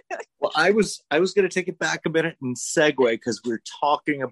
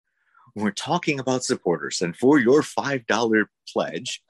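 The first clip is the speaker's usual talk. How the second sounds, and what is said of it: Public radio pledge-drive announcer voice. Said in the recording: “put on my PBS voice? ... I totally PBS'd us here.”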